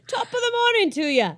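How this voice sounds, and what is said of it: Attempted Irish accent. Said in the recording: “you need to read this in an Irish accent ... is that Irish? ... Yeah, that was good ... That was as Irish as this is going to get”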